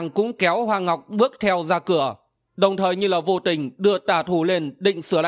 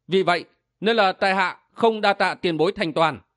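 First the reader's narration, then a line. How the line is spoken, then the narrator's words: Smiling. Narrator (Vietnamese): Thần Chính Nghĩa mỉm cười nói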